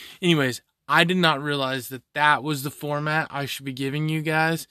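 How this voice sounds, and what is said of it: Usual voice. Nothing is said of it.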